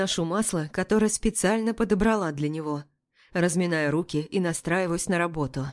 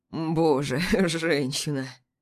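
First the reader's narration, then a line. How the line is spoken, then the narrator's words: Hoarse groan. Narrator (Russian): Хрипло стонет Мирон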